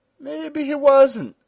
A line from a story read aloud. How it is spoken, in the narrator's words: said the giant in a cooing voice